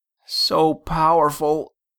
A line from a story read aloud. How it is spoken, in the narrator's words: gasped